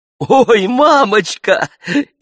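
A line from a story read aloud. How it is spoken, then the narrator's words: Bursting into laughter. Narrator (Russian): и расхохоталась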